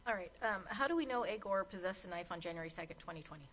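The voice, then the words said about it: Very fast speech. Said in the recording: “you said that so fast. ... Sorry, I do speak quickly.”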